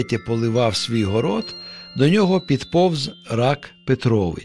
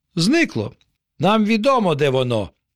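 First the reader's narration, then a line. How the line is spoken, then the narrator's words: Mushrooms exclaiming together. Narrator (Ukrainian): вигукнули опеньки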